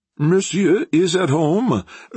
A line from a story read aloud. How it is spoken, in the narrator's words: quavered the old concierge